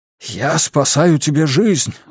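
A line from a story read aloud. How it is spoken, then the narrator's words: Breathed out. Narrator (Russian): выдохнул Лем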